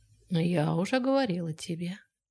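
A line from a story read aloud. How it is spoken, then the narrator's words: Quiet reply. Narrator (Russian): негромко ответила Нелл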